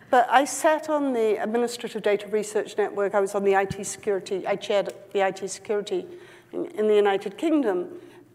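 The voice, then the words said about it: Non-New York accent. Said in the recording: “as you can probably tell from my accent, I'm not actually from New York originally”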